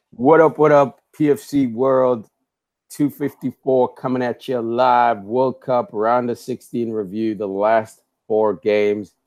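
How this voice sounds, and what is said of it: Raspy hoarse voice. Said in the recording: “I sound a little bit raspy.”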